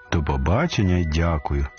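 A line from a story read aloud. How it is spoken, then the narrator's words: Plain. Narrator (Ukrainian): сказав король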